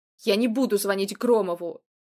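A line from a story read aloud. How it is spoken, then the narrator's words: Sharp. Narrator (Russian): резко сказал Шмелев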